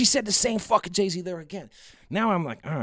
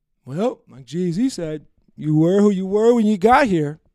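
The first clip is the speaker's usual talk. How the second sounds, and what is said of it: Imitates another person's voice. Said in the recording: “That's exactly how she sounds, by the way. Nah, I'm joking. But that's my impersonation.”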